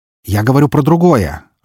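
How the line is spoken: Irritated, curt. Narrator (Russian): раздраженно бросил Эмилио

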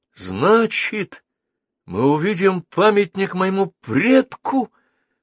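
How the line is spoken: Exclaiming. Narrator (Russian): воскликнул Геннадий Николай Ефимович

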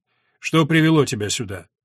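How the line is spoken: Cold question. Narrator (Russian): Епископ холодно спросил

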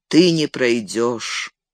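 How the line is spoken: Even, steady voice. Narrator (Russian): ровным голосом произнес он

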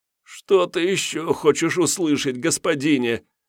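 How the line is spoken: Moaning. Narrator (Russian): простонал жрец

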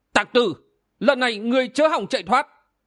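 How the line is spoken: Loud shout. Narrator (Vietnamese): Túy Phật Thiên Hồ quát lớn

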